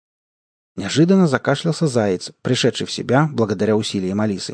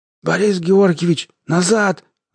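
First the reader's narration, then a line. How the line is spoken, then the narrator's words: Hoarse wheeze. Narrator (Russian): захрипел он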